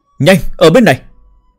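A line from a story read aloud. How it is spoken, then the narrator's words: Urgent loud shout. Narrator (Vietnamese): Dưới tình thế cấp bách, lớn tiếng hô một tiếng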